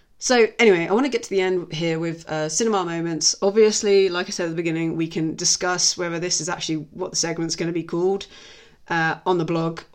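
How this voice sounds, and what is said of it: Tired, uneven voice. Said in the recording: “if my voice has gone up and down or seems a bit tired. I think I've been chatting or singing a little bit too long today”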